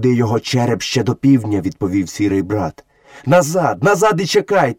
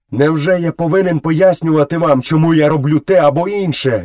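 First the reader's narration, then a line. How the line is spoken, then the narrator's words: Furious shout. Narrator (Ukrainian): люто закричав Мауглі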